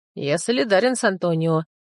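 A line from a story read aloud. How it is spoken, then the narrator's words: Speaking through laughter. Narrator (Russian): сквозь смех сказал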